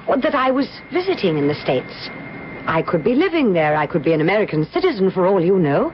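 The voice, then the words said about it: Foreign, non-American accent. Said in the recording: “I assumed your accent.”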